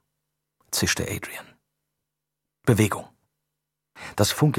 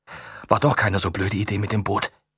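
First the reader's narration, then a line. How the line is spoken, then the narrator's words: Panting. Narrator (German): keuchte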